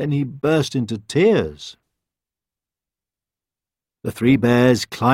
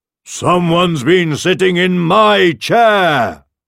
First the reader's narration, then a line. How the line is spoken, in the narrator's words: roared the father bear